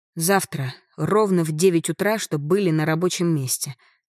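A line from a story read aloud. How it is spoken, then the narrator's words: Plain. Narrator (Russian): сказала всем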